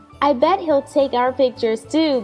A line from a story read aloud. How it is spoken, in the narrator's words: Dwayne shouted, full of happiness